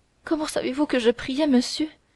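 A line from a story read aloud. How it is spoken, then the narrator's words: Choked with sobs. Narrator (French): dit Milady, d'une voix suffoquée par les sanglots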